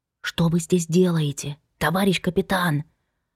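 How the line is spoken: Whispered reply. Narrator (Russian): Тоже шепотом откликнулась Инна

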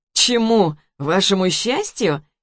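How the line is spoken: With a short laugh. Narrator (Russian): хохотнул

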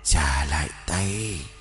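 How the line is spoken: Faint fading hiss. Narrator (Vietnamese): Tiếng rít văng vẳng rồi như tan vào gió

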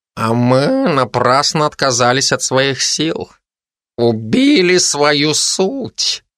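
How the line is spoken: Drawling. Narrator (Russian): протянул котик

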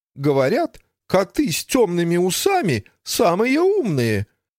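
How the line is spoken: Muffled, from under table. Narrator (Russian): сообщила Фанни под стол, перестав стонать

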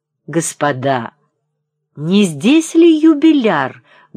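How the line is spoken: Loud hurried question. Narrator (Russian): громко спросил кто-то, вбегая в комнату

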